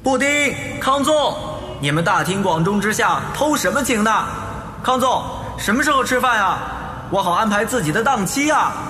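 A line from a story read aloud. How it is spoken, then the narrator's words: Loud shouting. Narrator (Chinese): 悠悠大声喊着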